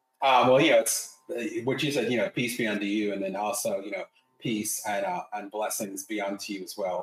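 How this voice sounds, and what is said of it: North Carolina American accent. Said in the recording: “even with the North Carolina accent”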